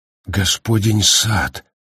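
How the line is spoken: Uncertain repetition. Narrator (Russian): неуверенно повторил Гаррити

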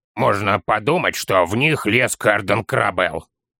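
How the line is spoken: Child snorting. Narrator (Russian): фыркнул малыш

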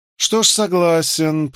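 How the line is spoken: Said through clenched teeth. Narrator (Russian): процедил губернатор

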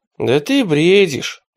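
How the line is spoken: Sighing. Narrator (Russian): вздохнул раб

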